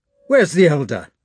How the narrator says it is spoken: demanded Rostov in a loud voice

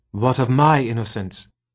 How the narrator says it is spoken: asked Luxa, her voice tight

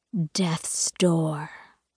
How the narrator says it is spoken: He hisses the words

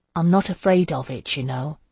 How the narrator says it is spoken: he said softly

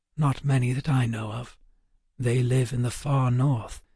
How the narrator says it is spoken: Waylon whispered back

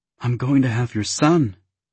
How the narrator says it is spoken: crowed happily

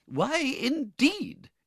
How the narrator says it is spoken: exclaimed Mrs

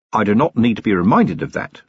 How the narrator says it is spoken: said Vimes

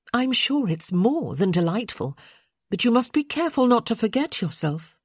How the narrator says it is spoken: she said sharply

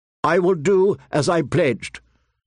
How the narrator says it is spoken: Sir Cleos replied stiffly

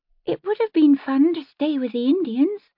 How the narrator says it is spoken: her sister said, a little wistfully

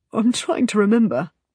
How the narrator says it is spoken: he says, his voice unsteady

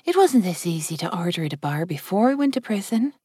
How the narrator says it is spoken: Chloe whispered

